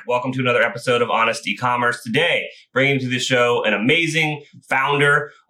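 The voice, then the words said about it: Talking very fast. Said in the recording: “I'm talking super fast, so I'm going to try to slow myself down”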